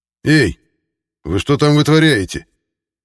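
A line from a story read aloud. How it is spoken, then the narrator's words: Stern shout from behind. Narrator (Russian): Строго прокричал за спиной Сицкий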